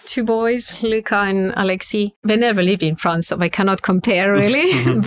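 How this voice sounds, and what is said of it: Strong French accent. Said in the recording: “We speak French at home, so that's I will never lose my super strong accent.”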